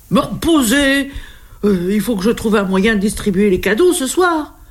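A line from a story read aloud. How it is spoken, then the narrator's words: Desperate exclamation. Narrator (French): s'écrie le Père Noël désespéré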